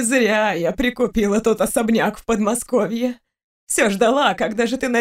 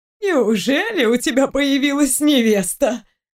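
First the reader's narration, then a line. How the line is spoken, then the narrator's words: Joyful grandmother exclaiming. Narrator (Russian): Радостно воскликнула бабушка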